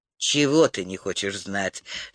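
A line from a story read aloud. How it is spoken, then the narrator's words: Soft question. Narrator (Russian): мягко переспросил Тирль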